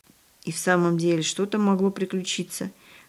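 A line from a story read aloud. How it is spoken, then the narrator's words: Whispering. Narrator (Russian): шептался Павлик с сестрой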